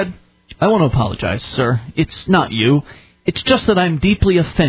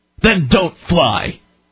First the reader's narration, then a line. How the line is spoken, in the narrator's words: He sneered at me in an angry voice